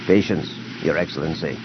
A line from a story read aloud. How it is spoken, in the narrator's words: Major Groden Tierce said quietly